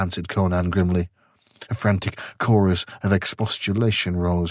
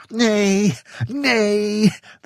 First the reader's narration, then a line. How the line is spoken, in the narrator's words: they cried eagerly